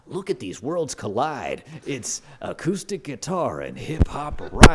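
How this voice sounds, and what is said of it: Radio announcer voice. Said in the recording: “that is the whitest radio voice ... That was amazing ... That was really good. It was Casey Kasem, I think”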